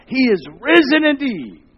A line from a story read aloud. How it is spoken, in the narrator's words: the people from the hills cried out